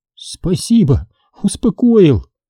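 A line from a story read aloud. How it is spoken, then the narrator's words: Smiling through tears. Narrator (Russian): Сквозь слезы улыбнулась Лариса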